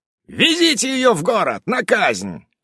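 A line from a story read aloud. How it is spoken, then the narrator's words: Yelling. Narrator (Russian): орал царек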